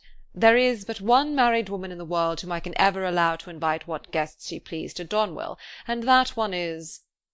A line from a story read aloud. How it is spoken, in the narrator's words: he calmly replied